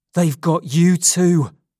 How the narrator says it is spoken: he cried

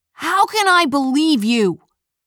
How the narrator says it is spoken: Lee shouted

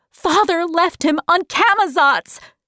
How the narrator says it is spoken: shouted Meg angrily

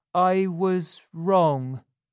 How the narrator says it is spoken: he said slowly

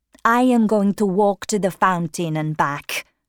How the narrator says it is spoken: she said

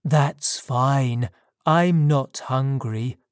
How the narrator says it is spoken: I replied

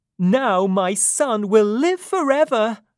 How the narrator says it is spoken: she cried

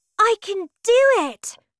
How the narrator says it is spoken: she cried

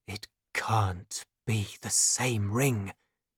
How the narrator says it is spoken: he whispered

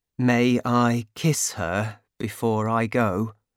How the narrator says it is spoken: he asked

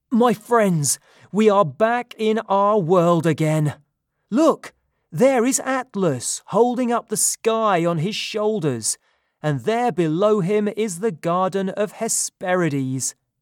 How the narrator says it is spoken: Suddenly cried

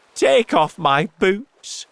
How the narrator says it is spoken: shouted the centipede

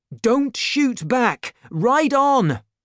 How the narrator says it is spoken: shouted D'Artagnan

